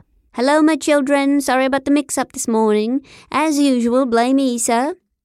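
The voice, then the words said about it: Fake British accent. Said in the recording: “he announced in his fake British accent.”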